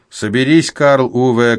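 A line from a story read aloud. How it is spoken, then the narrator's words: Shouted. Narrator (Russian): крикнул мне Эйвин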